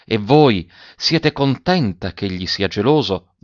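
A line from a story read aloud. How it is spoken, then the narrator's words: Asked under breath. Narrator (Italian): domandò Gemmati sottovoce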